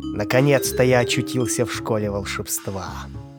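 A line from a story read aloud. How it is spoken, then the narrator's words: Muttering to himself. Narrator (Russian): пробурчал сам себе под нос грязный хвост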